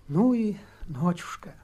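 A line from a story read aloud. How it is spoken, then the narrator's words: Passionate whisper. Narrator (Russian): жарко прошептала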